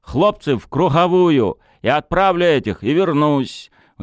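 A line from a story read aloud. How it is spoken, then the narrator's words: Shouted. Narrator (Russian): Тарас крикнул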